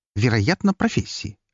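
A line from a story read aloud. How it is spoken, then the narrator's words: Sharp reply. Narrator (Russian): резко отозвалась она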